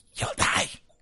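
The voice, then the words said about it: Little squeaky voice. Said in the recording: “you hear a little squeaky voice go”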